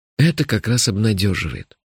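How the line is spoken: Calm. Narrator (Russian): спокойно сказал я

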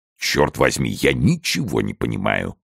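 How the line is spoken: Muttered. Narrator (Russian): пробормотал Портос

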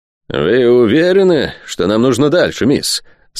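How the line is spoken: Through gritted teeth. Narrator (Russian): сквозь зубы осведомился лорд Спенсер

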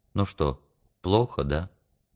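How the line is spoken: Quiet question. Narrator (Russian): тихонько спросила

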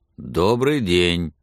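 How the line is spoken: Gloomy. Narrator (Russian): мрачно сказал

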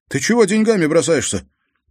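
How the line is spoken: Angry huff, ringing shout. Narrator (Russian): Попрошайка сердито запыхтел в усы и звонко крикнул

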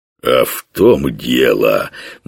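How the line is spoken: Oily, unctuous voice. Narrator (Russian): масляным голосом сказал богатырь

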